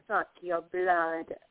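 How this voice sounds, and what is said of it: Dracula vampire voice. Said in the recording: “That was my Dracula imitation.”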